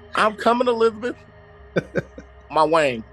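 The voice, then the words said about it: Put-on Southern US accent. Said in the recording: “Sounding all southern. ... how I can live southern”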